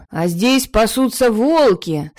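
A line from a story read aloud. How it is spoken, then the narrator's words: Angry, defiant shout from behind. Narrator (Russian): со злым задором выкрикнул откуда-то сзади Эйнар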